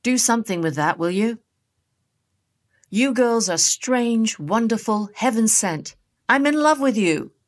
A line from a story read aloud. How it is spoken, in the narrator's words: Delta called out to him